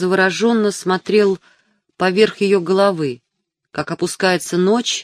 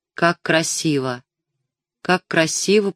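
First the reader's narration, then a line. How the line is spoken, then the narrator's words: Muttering. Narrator (Russian): пробормотал он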